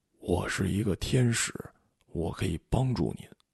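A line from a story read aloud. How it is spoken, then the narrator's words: Lowered voice. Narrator (Chinese): 他压低声音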